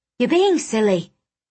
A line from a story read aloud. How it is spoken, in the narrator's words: I snapped